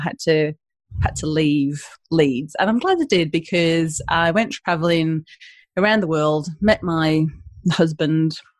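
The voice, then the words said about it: Northern English Leeds accent. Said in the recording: “Not with this accent, Ash ... I'm originally from the northeast of England, and I went to uni in Leeds and picked up the accent”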